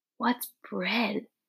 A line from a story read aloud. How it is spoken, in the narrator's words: Lena whispered to Dune